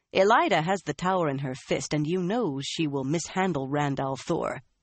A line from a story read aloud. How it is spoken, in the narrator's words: Swan said scornfully